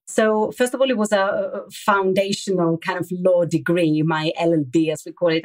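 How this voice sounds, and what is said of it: Greek speaker with slight London accent. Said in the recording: “London, which is where probably I picked a bit of this accent that you're hearing. Originally, I come from Greece.”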